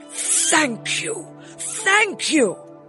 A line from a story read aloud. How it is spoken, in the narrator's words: cried the emperor